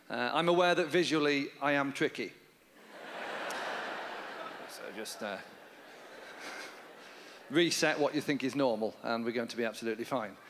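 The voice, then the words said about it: Soothing Northern English accent. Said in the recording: “a very soothing North of England accent ... I'm from Yorkshire in England.”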